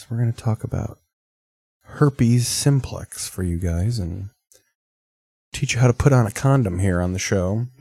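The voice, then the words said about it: Smooth late-night radio DJ voice. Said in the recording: “I'm trying to do my nighttime radio voice for you guys.”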